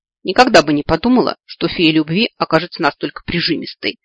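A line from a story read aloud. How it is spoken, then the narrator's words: Snorting cat. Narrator (Russian): Фыркнула кошка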